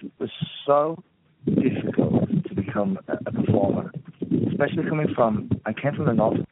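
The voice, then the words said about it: Northern English accent. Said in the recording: “By your accent, and you say you're from Northern England, I believe you.”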